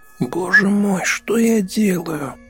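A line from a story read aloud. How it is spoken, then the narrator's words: Moaning inner voice. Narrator (Russian): стонал его внутренний голос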